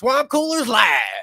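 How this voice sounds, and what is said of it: Put-on redneck accent. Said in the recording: “read that in like a redneck accent?”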